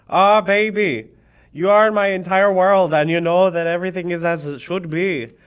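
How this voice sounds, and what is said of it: Put-on half Scottish, half Irish accent. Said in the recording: “Here come the accents. ... What accent is that? ... I don't know anymore. ... So this is sort of Scottish, sort of Irish.”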